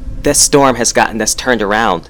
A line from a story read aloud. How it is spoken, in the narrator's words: Miranda said